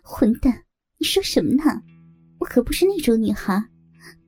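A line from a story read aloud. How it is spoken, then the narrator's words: Laughing playfully. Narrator (Chinese): 于毅笑着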